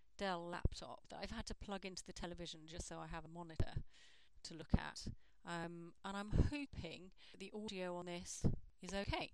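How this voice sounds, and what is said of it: Common standard British accent. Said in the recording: “this is my accent. I think of it as a non-accent ... if you listen to British radio, if you watch British TV, it's fairly ubiquitous”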